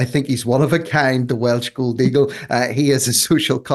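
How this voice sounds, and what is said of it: Usual voice. Nothing is said of it.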